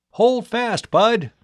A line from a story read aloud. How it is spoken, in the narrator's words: Tom cried